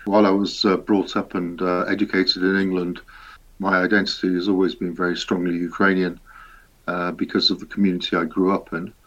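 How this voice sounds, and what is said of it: Strong Leicester English accent. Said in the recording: “I speak with a very strong Leicester accent.”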